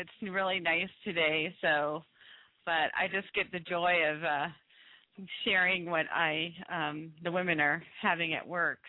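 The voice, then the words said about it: Voice affected by a cold. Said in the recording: “Excuse my voice today. I have a cold”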